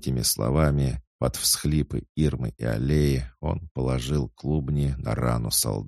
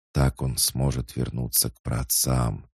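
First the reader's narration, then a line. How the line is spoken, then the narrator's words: Whisper. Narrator (Russian): шептал степной клык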